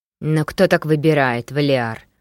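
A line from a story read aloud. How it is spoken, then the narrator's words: Reproachful booming drone. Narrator (Russian): укоризненно прогудел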